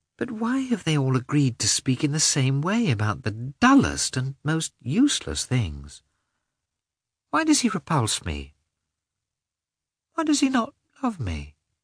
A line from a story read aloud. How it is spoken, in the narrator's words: asked himself, sadly